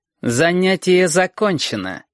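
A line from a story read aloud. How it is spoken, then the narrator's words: Icy tone. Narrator (Russian): сказал Портнов ледяным тоном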